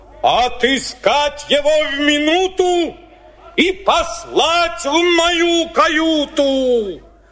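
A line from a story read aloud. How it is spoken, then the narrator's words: Angry shout. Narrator (Russian): Кит во гневе закричал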